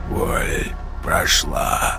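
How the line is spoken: Hoarse rasp. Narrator (Russian): прохрипел

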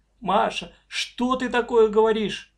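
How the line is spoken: Mother's exclamation. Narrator (Russian): воскликнула мама

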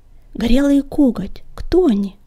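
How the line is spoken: Whispered question. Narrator (Russian): шепотом поинтересовался огонек

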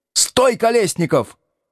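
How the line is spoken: Shout. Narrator (Russian): крикнул он

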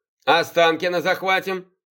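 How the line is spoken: Snorted. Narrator (Russian): хмыкнул Сергей

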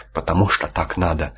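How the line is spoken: Calm. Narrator (Russian): спокойно сказал резерв-победитель Сварок

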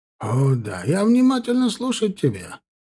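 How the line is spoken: Shopkeeper's exclamation. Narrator (Russian): воскликнул хозяин лавки

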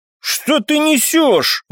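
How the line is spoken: Indignant, angry. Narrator (Russian): возмутился Артем, зло

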